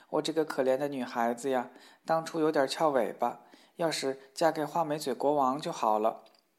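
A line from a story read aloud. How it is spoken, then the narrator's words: Sighing, lamenting. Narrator (Chinese): 公主又唉声叹气地说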